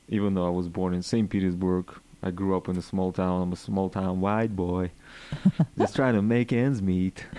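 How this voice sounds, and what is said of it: Russian accent. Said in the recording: “where is your accent coming from? ... The accent. It's coming from Russia, all the way from Russia”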